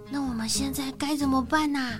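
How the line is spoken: Quiet question. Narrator (Chinese): 皮诺小声的问

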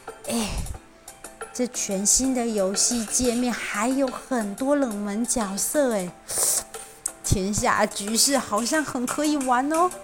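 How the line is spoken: Admiring exclamation. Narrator (Chinese): 忍不住赞叹起来

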